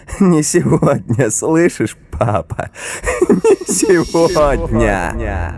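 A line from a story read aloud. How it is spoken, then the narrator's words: Wild laughter. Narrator (Russian): дико смеялась и повторяла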